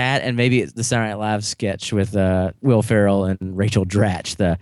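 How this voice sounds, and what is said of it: Usual voice. Nothing is said of it.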